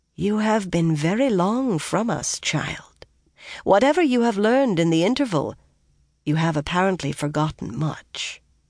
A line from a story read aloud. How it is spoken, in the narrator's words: Anaya said in a gently chiding voice